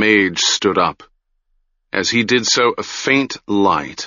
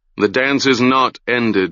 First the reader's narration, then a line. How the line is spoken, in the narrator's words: he said